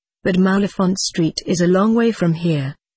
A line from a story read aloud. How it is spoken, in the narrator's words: I said